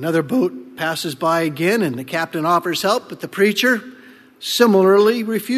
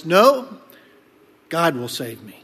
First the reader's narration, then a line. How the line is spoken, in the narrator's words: the preacher calmly replies